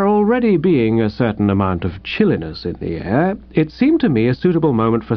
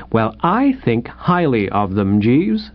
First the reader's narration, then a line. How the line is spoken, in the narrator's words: said firmly